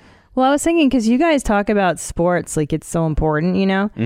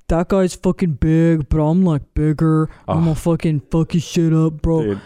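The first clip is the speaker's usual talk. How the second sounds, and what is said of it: Imitates a macho high school boy. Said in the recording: “Good impression. ... Really good impression.”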